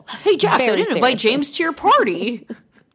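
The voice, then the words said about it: Imitates another person's voice. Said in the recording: “very good too, the James accent”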